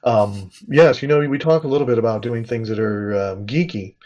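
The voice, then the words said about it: Calm public-radio announcer voice. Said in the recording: “in my NPR voice.”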